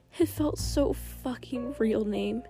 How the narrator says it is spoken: choked out into the crook of your neck

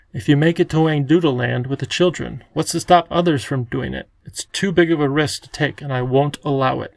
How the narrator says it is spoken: he snapped

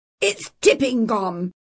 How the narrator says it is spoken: Haga said sharply

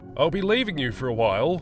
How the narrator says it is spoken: he boomed

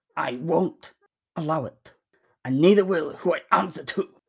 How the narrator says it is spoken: Lorena spat at Mindstrung

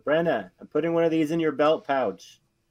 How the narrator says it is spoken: very loudly, tell

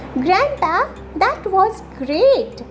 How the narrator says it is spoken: Betty shrieked with joy

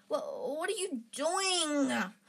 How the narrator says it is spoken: moaned Ron grey-faced

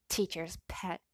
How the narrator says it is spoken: Kachan hissed

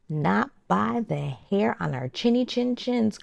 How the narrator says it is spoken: cried the three little pigs

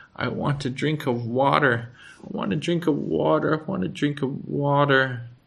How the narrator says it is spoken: Mary was sobbing

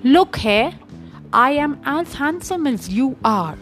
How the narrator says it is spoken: he said

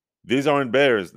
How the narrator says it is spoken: they yelled across the street

